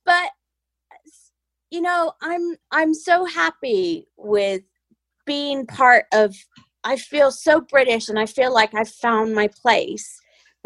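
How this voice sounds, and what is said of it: American accent. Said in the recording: “my accent still sounds very American.”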